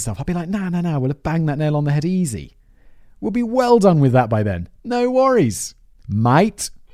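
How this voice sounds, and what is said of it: Bad put-on Australian accent. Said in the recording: “my bad Australian accent”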